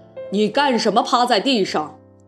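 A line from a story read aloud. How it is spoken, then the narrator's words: Plain. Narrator (Chinese): 他们问匹诺乔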